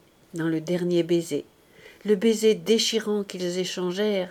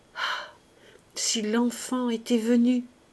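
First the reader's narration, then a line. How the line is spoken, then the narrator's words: Quiet sobbing stammer. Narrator (French): Plus bas encore, en un sanglot, elle crut l'entendre bégayer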